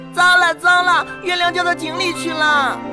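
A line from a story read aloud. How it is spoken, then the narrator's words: Shouting. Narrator (Chinese): 他们的叫声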